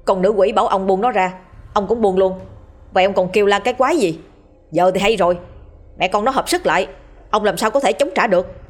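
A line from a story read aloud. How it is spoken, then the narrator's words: Harsh, through gritted teeth. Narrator (Vietnamese): Hắn gằn giọng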